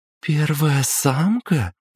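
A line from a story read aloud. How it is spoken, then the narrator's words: Sugary singsong voice. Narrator (Russian): Елейным голоском пропела девушка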